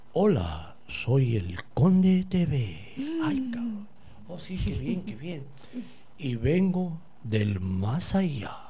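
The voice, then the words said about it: Imitated character voice. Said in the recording (Spanish): “más o menos habla así ... voy a tratar de imitar la voz”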